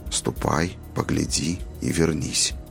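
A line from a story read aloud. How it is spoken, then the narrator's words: Whispered. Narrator (Russian): Шепотом повторил Роланд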